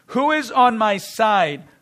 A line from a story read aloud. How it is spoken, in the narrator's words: he, Jehu, called out